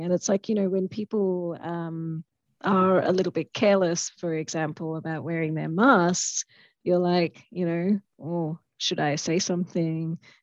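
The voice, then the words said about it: Hoarse, strained, fading voice. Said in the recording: “losing my voice”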